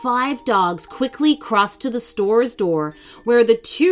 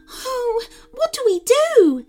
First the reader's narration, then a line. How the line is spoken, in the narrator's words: said Tina anxiously